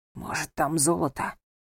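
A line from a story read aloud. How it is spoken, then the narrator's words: Whispered. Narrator (Russian): произнес шепотом Михей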